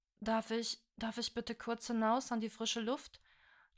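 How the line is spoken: Soft, pleasant, uneasy male voice. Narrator (German): Jalimars Stimme, wie immer sanft und angenehm wohlklingen, konnte nicht über seine innere Unruhe hinwegtäuschen

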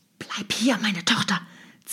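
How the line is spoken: Hissed. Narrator (German): zischte sie ihr zu

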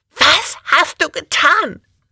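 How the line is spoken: Panicked female shriek. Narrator (German): kreischte sie panisch

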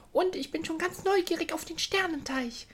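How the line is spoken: Excited call. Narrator (German): rief sie und trat wieder aufgeregt von einem Bein auf das andere

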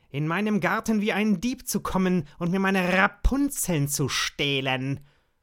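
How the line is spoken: Angry. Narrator (German): sagte zornig

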